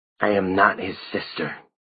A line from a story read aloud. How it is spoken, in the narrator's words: hissed